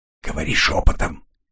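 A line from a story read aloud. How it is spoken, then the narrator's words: Quiet. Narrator (Russian): тихо сказал Коридон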